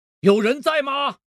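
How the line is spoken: Repeated asking. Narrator (Chinese): 问了好几遍

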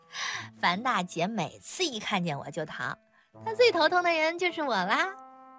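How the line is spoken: Laughing. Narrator (Chinese): 她笑道

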